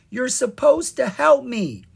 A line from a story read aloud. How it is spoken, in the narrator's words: shouting